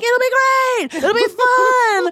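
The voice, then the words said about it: Nicole Byer impression. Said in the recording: “that's my Nicole Byer impression. ... I like it. It was very good.”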